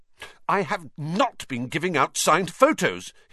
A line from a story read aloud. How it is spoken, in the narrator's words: he said hotly